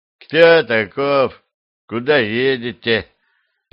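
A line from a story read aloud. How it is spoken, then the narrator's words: Lazy question from guard captain. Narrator (Russian): лениво спросил начальник караула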